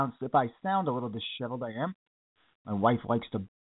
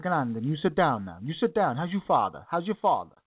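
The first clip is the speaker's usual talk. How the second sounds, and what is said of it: Imitated Italian accent. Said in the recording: “She gets the Italian accent.”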